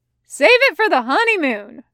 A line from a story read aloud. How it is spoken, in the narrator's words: Bitters yells